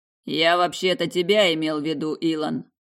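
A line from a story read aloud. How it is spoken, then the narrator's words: Near growl. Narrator (Russian): почти прорычал Петери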